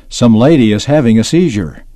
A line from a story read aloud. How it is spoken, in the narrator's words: someone shouting